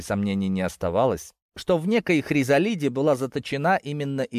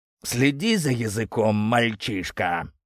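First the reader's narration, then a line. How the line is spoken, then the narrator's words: Angry, through gritted teeth. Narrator (Russian): Гневно процедил рыжий демон сквозь зубы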